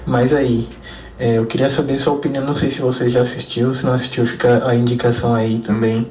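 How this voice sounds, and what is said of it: São Paulo Brazilian Portuguese accent. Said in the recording (Portuguese): “Com sotaque paulista, porque eu sou paulista.”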